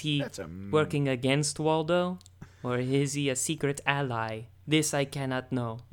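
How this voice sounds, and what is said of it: Atrocious accent imitating another person's voice. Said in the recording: “I know my, like, accent is atrocious ... Is it actually Werner Herzog?”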